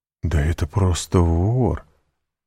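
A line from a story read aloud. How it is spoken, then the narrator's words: Disappointed muttering. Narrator (Russian): разочарованно пробормотал Монте-Кристо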